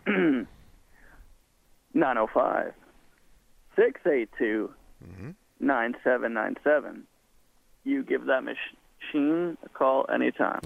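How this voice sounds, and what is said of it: Impression of Matt Soper. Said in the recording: “my impression of Matt Soper reading the intro to the machine, reading the phone number ... that probably didn't sound as well as I thought it would be ... Didn't quite stick the landing”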